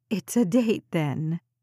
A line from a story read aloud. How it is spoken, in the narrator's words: giggled